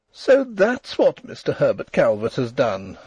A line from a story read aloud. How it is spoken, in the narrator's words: she exclaimed, amid the embers of her mirth